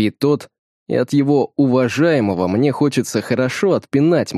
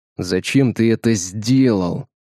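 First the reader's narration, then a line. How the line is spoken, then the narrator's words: Through clenched teeth. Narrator (Russian): Сквозь зубы спрашиваю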